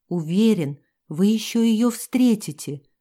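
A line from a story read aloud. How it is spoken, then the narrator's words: Breathed against lips. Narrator (Russian): выдохнул в губы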